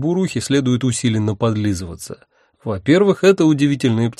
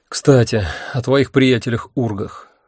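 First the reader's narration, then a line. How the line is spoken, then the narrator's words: Sighing. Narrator (Russian): вздохнул я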